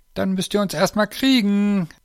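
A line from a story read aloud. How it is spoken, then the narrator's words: Called out. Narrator (German): rief Lisa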